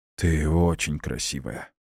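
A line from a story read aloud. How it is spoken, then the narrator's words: Hoarse whisper. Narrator (Russian): говорю, на деле выходит хриплый шепот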